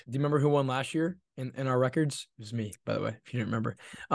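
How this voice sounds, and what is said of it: Hoarse, mostly lost voice. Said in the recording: “My voice is still kind of gone.”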